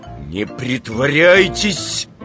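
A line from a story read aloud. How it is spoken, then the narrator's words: Menacing. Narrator (Russian): грозно сказал Иван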